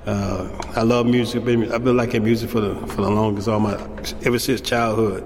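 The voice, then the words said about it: Southern US accent. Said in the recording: “down south, you know, because then you can tell by my accent”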